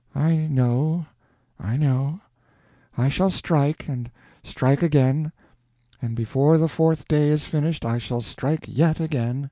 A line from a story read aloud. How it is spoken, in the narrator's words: said Joan dreamily